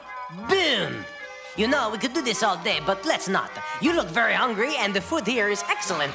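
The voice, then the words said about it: Silly exaggerated French accent. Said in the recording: “a very fun French accent in this scene, and it's very silly”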